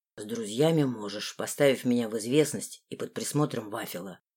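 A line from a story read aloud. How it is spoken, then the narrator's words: Plain. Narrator (Russian): ответил лорд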